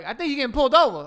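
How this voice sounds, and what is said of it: Imitated woman's accent. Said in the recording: “What was that accent?”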